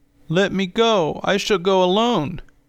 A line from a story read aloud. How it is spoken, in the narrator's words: cried the boy